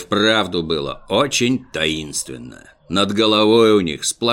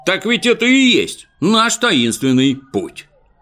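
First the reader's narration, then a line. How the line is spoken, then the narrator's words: Sudden shout, two voices. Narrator (Russian): вдруг оба как крикнут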